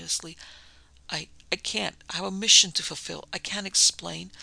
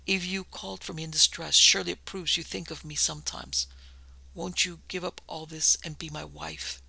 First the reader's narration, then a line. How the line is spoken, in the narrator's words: he went on hoarsely